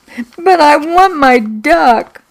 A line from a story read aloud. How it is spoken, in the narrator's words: I sobbed